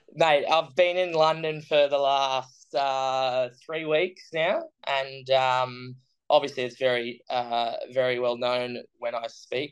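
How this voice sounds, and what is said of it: Australian accent. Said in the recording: “you're from Australia ... I'm from Australia, from Brisbane, which is sunny Queensland”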